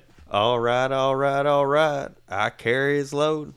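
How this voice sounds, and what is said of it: Matthew McConaughey impression. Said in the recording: “Give me your McConaughey impression ... I thought I was sitting beside Matthew McConaughey”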